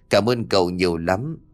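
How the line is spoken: Hurried effusive thanks. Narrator (Vietnamese): rối rít

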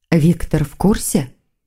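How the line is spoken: Quiet question. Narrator (Russian): тихо спросила ведьма Маргариту

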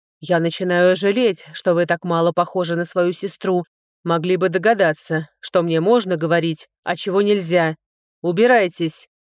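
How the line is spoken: Barked. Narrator (Russian): рявкнул он

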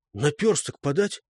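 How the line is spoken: Whispered question. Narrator (Russian): Жогушка спросил шепотом

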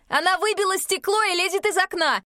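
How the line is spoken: Shouted while running. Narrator (Russian): Не добегая, крикнул

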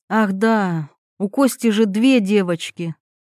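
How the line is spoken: Sighing. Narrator (Russian): Ирина вздохнула

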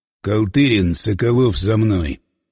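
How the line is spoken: Crisp, clipped delivery. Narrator (Russian): отчеканил Власов

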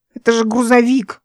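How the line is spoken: Grumbling. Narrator (Russian): буркнула она

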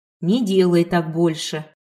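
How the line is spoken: Old woman, stern. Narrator (Russian): строго сказала старушка

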